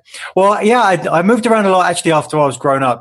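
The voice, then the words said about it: English accent. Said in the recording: “guests who have an accent ... people say that you've got an accent ... growing up just outside of London”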